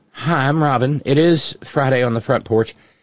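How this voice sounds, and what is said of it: Hoarse, rough voice. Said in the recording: “my voice is a mess ... my throat's kind of trashed”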